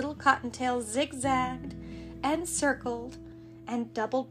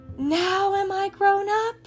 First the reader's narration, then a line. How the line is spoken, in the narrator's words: said the Cottontail, gasping for breath